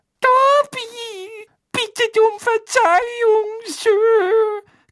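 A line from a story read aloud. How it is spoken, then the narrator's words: Timid squeak. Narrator (German): quiekte Dobby verschüchtert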